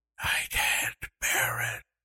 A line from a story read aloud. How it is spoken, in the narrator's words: she whispered